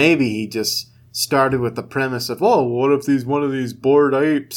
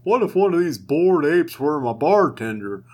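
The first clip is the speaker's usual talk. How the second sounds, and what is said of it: Imitates another person's voice. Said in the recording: “This is Seth Green's accent.”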